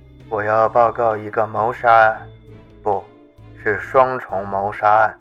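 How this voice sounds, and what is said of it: Flat monotone voice. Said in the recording (Chinese): “用单调的声音说道”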